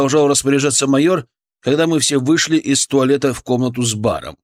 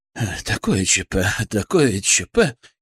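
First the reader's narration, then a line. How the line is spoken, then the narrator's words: Frightened repeating. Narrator (Russian): испуганно повторял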